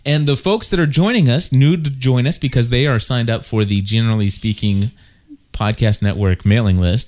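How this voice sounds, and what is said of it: Put-on professional radio announcer voice. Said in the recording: “my radio voice. I'm trying to put on a ... professional”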